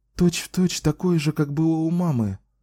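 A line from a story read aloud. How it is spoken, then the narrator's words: Joyful. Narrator (Russian): радостно сказала она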